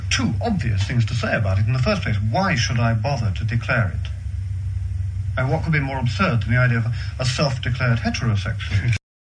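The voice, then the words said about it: Fabulous Cambridge accent. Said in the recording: “Cambridge educated. That's where that fabulous accent and brain comes from.”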